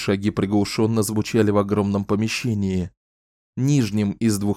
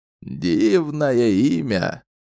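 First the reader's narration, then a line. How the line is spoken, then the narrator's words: Giggling. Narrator (Russian): Хихикая, Видетта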